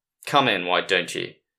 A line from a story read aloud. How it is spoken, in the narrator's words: Solcross said flatly